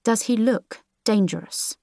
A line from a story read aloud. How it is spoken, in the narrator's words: Aha scoffed